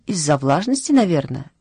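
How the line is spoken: Cheerful explanation. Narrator (Russian): весело объяснила Матильда

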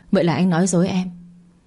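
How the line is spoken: Cold, wry smile. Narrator (Vietnamese): cười nhạt nói

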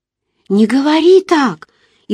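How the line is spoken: Frightened voice. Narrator (Russian): испуганно произнесла я

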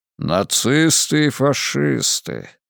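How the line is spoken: Cardinal's thoughtful drawl. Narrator (Russian): задумчиво протянул кардинал Лурдзамийский

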